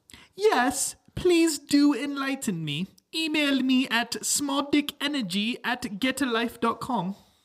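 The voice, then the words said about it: Mocking imitation of another person's accent. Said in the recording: “I'm going to tell you exactly what Greta Thunberg would tell you in her stupid little accent.”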